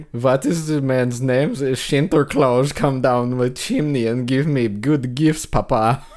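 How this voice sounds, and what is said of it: Exaggerated put-on German accent. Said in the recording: “Why are you German? ... You sounded like somebody ... There's a real racist German accent in like a Disney show”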